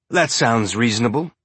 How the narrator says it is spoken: Murtry said

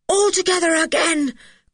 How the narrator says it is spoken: cried Julian

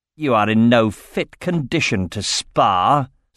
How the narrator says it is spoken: scoffed the elf

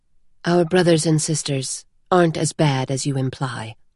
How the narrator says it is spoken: she said quietly

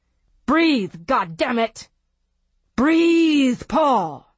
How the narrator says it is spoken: He heard a voice screaming

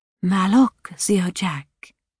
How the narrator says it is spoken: In a whisper, she said

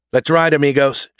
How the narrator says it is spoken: she shouted

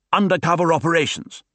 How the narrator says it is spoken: snapped Salmanowitz

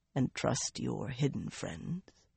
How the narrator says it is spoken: he asked softly, much too softly

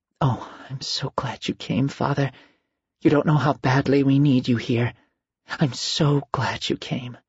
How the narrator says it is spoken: anxiously, all the while whispering to him

